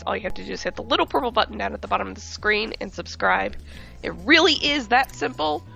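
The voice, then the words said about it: Sick, strained voice from a cold. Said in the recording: “sorry for my voice. I'm under the weather. I got a cold this week. ... so this is how I sound.”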